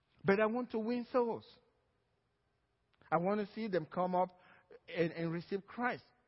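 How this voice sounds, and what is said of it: Nigerian accent. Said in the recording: “The reason I'm going to Nigeria ... It's just the accent will not go.”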